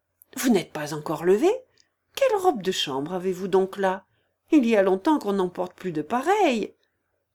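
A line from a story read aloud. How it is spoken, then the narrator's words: Reproachful. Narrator (French): dit-il à Oblomov d'un ton de reproche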